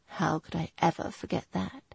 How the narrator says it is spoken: He whispered

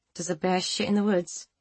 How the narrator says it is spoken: She said through gritted teeth

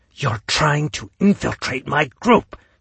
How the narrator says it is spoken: she hissed

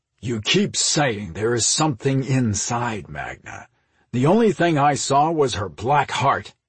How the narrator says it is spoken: Drago snarled

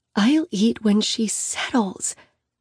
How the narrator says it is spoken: she whispers

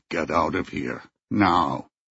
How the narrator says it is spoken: His voice grating low, he said

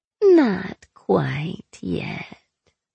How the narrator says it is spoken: the faceless purred

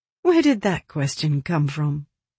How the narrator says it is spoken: Alice chuckled softly

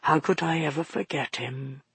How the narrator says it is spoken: He said so quietly that Maggie could hardly make out the words

